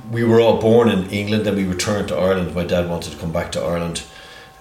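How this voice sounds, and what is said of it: Strong English accent. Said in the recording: “Sometimes it's a bit difficult to understand you because of your strong English accent.”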